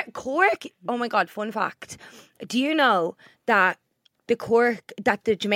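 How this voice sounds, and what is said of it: Usual voice. Nothing is said of it.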